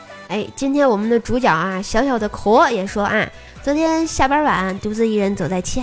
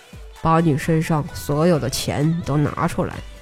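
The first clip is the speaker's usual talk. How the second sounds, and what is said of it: Low, deep threatening voice. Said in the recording (Chinese): “一个低沉的声音说道”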